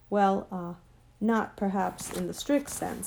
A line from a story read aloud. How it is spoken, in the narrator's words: stammered Uncle Andrew